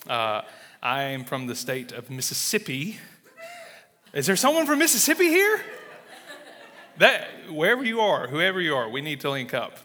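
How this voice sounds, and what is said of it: Southern US drawl. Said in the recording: “you're going to detect a southern drawl.”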